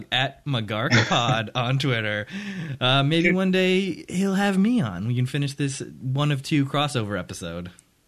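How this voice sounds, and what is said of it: Smooth, rich radio announcer voice. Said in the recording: “Your voice is like a creamy swirl of cinnamon ... I really leaned into it. I give you the lean-in radio voice”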